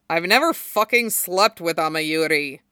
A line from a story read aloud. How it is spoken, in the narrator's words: Zabuza grunts